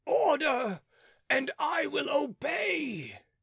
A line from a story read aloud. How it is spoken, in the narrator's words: Beausire cried